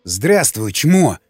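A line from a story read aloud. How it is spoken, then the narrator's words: Growled, unnatural voice. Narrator (Russian): прорычал Николай не своим голосом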